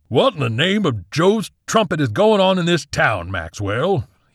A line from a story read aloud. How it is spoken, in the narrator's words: thundered